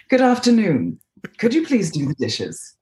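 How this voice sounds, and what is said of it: Put-on accent. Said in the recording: “In the accent”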